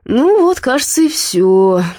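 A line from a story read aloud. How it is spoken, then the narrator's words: Sighing. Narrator (Russian): вздохнул Дима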